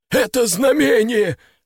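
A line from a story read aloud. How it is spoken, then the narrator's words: Sudden shriek. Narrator (Russian): вдруг взвизгнул бандит по кличке Сухарь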